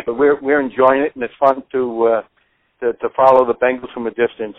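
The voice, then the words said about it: Northern US accent. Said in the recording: “I'm a Yankee, as you can tell from my accent probably”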